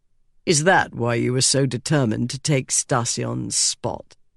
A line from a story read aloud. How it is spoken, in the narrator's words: He asked icily